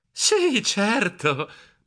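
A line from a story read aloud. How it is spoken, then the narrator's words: Dreamy murmur. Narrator (Italian): mormorai in tono sognante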